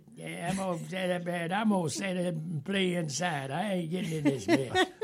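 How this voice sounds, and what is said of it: Imitates another person's voice. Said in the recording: “pretty good impression there”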